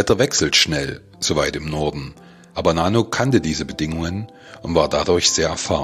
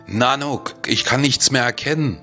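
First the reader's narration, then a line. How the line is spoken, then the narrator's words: Panicked shout. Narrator (German): rief ich panisch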